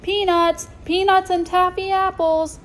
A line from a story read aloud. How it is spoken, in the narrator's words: Startled, Toby shouting at the top of his lungs